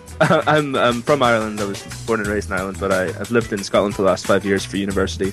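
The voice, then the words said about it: Vaguely Irish, vaguely Scottish accent. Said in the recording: “I'm the one with the vaguely Irish, vaguely Scottish accent.”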